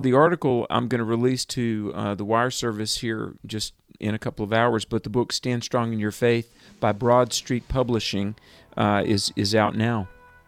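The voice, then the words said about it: Southern accent like Billy Graham. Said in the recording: “You sound like Billy Graham right there... A little bit... He's got that accent... And he's from Charlotte.”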